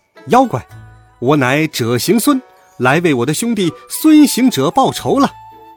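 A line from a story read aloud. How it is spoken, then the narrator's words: Shouting loudly. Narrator (Chinese): 孙悟空 高叫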